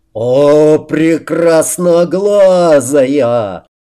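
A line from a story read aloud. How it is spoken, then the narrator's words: Roaring. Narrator (Russian): взревел Рамус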